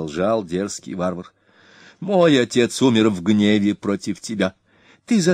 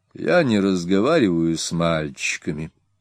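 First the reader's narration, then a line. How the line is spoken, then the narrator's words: Calm. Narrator (Russian): спокойно обратился он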